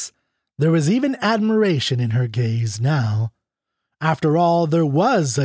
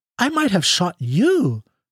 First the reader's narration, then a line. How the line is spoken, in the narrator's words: she exclaimed